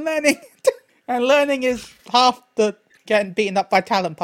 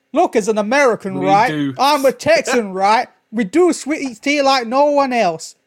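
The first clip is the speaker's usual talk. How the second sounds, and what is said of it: Weak put-on Texan accent. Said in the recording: “That was the weirdest Texan accent. ... You need a little bit more southern drawl into that.”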